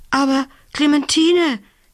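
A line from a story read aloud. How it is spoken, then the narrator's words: Gasping. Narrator (German): japste sie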